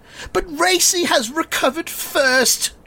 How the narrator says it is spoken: shouts

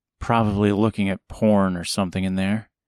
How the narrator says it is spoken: she mumbled

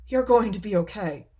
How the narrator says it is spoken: cried Pana, hoping to reassure both their friend and themselves

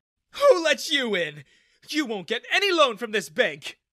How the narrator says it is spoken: he shrieked

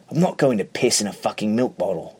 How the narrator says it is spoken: Richard snaps

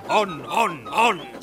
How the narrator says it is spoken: screamed the trucks

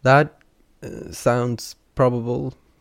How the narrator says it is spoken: they said with a small chuckle

